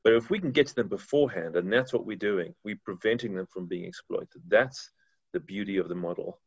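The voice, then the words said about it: Distinctive, appealing accent. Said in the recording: “you have the coolest accent ... you could literally say anything and it would sound 10 times cooler than me saying it”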